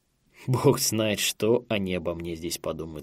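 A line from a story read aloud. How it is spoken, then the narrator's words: Plain. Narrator (Russian): сказал он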